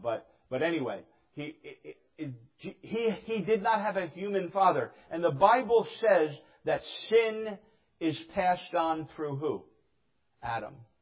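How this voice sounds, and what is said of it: New Jersey accent, dropped H. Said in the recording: “I say the word human wrong. It's my Jersey accent. ... I can't even say human. ... I drop the H, okay? We drop letters in New Jersey a lot.”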